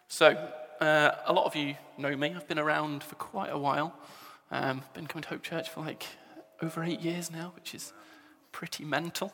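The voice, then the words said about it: English accent. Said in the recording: “You can probably tell from the accent, I'm an Englishman.”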